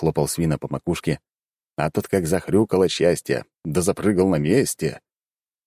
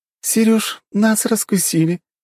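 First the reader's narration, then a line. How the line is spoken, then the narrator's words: Giggling. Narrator (Russian): хихикнула Николь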